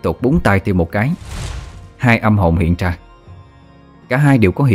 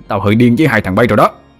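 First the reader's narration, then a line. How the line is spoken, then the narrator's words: Angry roar. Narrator (Vietnamese): Thằng Vinh một lần nữa thấy hai tên trước mặt không coi nó ra gì, liền gầm lên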